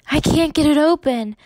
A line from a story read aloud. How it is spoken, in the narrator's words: Ellen said frantically